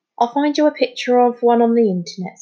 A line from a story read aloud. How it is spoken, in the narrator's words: said Amir kindly